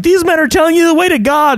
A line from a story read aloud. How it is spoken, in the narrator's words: she's walking around yelling